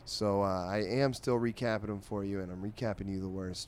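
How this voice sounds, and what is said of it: Tired, low-energy, unenthusiastic voice. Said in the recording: “If you can see, if you can hear in my voice, I am losing a bit of enthusiasm.”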